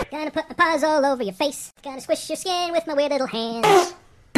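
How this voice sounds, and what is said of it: Raccoon character voice. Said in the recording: “Who let the raccoon in here? ... as an innocent woodland creature”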